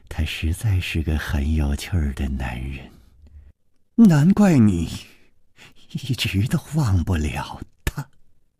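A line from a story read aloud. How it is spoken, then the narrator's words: Soft murmur. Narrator (Chinese): 宫南燕……喃喃地说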